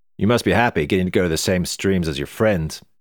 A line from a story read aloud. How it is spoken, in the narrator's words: said Dad